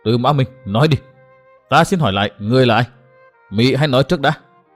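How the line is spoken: Slightly trembling voice. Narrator (Vietnamese): hội chủ hơi run run và nói

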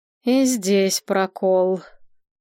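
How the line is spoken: Drawn-out drawl. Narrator (Russian): протянула Надежда

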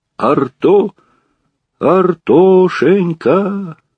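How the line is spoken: Old man's plaintive wail. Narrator (Russian): жалобно завыл старик

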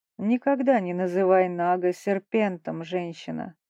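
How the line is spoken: Calm, dignified. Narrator (Russian): спокойно и с достоинством ответил гость

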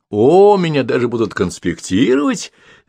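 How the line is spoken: Laughing. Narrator (Russian): рассмеялся Сергей Романович

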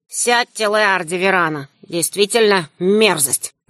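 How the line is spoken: Calm. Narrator (Russian): Горбоносый спокойно

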